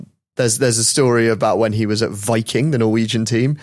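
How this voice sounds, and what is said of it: Usual voice. Nothing is said of it.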